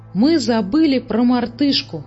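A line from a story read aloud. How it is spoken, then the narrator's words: Exclaiming. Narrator (Russian): воскликнул он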